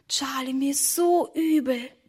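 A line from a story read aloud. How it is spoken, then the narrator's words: Whispered. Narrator (German): flüsterte Emma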